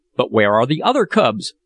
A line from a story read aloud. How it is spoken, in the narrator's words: cried one of the men with an oath that made me shudder